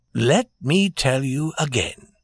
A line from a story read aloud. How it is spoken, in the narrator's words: said Prince Michael in his soft voice